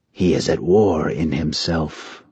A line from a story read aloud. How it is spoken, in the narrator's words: the eldest Nai said quietly